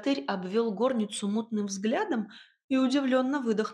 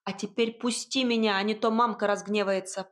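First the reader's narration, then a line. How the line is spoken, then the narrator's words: Sharp scolding shout. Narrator (Russian): прикрикнула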